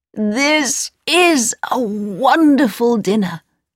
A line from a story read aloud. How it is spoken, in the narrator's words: cried the old man